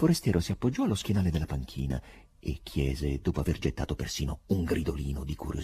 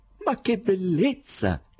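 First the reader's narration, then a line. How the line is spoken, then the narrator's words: Stranger exclaiming. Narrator (Italian): esclamò il sorprendente forestiero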